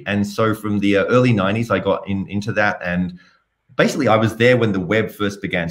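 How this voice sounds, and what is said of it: Australian accent. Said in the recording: “You can tell I have a bit of an accent. So I'm originally from Australia, from Sydney”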